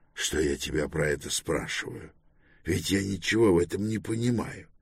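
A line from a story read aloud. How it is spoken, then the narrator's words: Apologetic whisper. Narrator (Russian): добавил он извиняющимся шепотом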